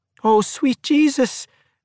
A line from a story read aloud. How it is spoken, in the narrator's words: Maggie cried out